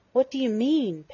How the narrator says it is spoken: Penny gasped, but she was already calmer

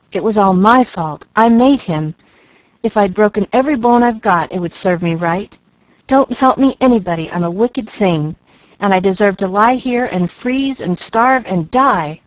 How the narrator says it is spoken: cried Jill, piling up punishments in a remorseful anguish of mind and body

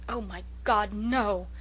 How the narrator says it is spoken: exclaimed Walter passionately

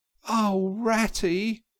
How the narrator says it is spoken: he cried in despair

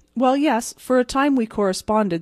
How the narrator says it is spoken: said the other

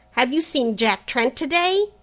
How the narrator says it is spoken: the latter cried

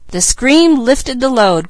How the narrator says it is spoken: cried Mickey

